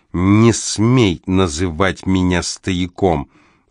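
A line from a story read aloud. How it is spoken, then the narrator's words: Clipped, emphatic. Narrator (Russian): отчеканивает он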